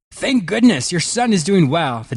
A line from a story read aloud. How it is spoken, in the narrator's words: the doctor happily informed the father